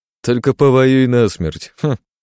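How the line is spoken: Snort. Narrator (Russian): хмыкнул Александр

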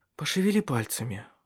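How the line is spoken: Tired. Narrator (Russian): устало произнесла

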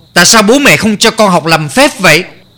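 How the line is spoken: Angry scolding. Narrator (Vietnamese): Kha Gia Khoan tức giận mắng

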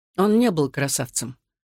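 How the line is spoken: Dry reply. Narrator (Russian): сухо ответил Александр

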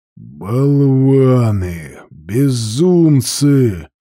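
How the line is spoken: Growl. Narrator (Russian): прорычал он

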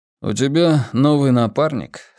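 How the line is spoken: Calm, hint of jealousy. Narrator (Russian): спокойно спросил Волк, не в состоянии скрыть в голосе нотку ревности

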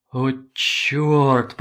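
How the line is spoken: Groan. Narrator (Russian): простонал

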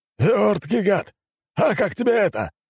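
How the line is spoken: Exclaimed. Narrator (Russian): воскликнул балахонистый

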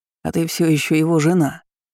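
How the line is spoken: Plain. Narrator (Russian): ответил мужчина

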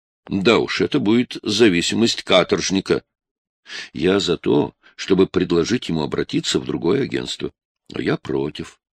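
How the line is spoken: Calm, even, unyielding. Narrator (Russian): произнесла Клэр спокойно и ровно, но так, что было ясно, она будет стоять на своем, как скала

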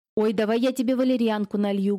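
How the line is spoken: Loud. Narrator (Russian): громко вступила тетка

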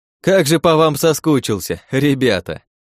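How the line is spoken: Loud. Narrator (Russian): Громко произнес я

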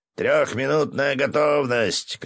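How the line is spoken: Shouting. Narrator (Russian): крикнул Виктор Харитонович

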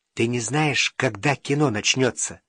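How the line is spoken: Whispered question. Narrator (Russian): шепотом спросил Вовка

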